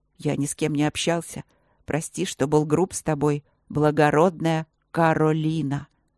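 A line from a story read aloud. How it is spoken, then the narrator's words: Solemn. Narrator (Russian): Торжественно сказал Вэйши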